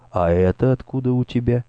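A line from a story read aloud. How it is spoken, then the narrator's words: Calm question. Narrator (Russian): она спросила спокойным тоном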